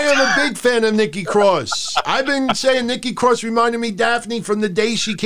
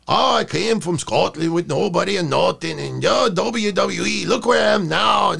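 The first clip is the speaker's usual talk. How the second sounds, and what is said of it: Put-on Scottish accent drifting Mexican. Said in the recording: “you're drifting from Scottish accent into Mexican ... it's like a Mexican Scott. It's a Texas-Mexican Scott”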